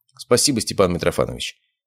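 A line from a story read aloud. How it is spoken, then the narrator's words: Flat, emotionless tone. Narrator (Russian): ровным безэмоциональным тоном сказал я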